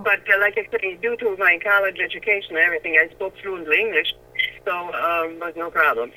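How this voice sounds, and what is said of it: German accent. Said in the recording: “they found out I was German ... everybody thought my accent was kind of cute”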